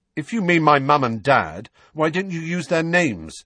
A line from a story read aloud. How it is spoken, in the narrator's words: said Harry loudly